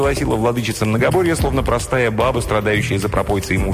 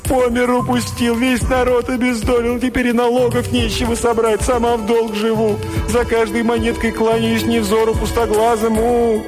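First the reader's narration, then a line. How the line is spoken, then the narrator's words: Childlike sobbing. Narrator (Russian): И зарыдала, словно у нее отобрали любимую куклу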